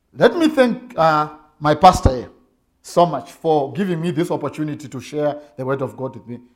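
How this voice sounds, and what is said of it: Zimbabwean-accented English. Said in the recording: “from Zimbabwe ... pardon my English and accent”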